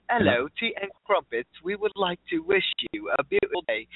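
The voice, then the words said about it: Put-on pleasant British accent. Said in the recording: “She has this British accent ... it's just so nice and pleasant”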